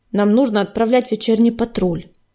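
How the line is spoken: Grumbling. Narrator (Russian): проворчала она, как в былые времена

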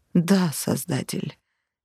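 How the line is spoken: Hoarse agreement. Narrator (Russian): хрипло согласилась Зоя

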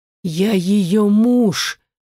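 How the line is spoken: Hoarse wheeze. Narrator (Russian): прохрипел

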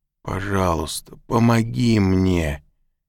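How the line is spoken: Moaning plea. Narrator (Russian): простонал он

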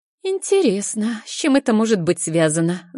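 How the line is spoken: Thoughtful. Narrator (Russian): задумчиво произносит Алена

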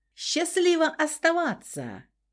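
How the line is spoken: Sly farewell shout. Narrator (Russian): крикнул на прощание хитрый Феникс

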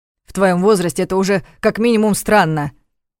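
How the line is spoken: Irritated heated retort. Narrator (Russian): раздраженно бросил он в пылу очередной ссоры

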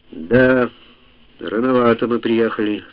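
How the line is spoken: Sigh. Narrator (Russian): вздохнул Йоковатари

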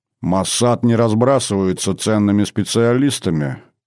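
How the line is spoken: Irritated grumble. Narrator (Russian): пробурчал генерал и почувствовал прилив раздражения

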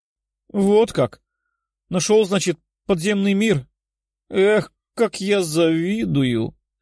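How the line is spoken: Sorrowful sigh. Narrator (Russian): Лиза горестно вздохнула

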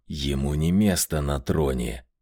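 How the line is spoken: Hissed. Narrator (Russian): прошипел Меркулов

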